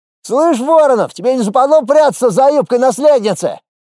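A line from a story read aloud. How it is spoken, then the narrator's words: Shout from the crowd. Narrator (Russian): крикнул кто-то из первых рядов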